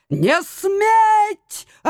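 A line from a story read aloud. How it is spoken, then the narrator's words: Yelling. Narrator (Russian): орал он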